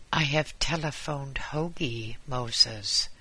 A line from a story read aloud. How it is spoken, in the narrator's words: said Mrs